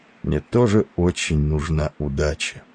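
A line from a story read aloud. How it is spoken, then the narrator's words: Barely audible. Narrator (Russian): прибавил он едва слышно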